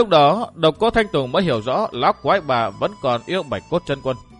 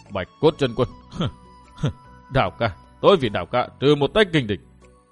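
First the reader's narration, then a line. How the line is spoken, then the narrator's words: Menacing old woman muttering. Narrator (Vietnamese): Lão quái bà lộ vẻ hung ác vô tưởng, lẩm bẩm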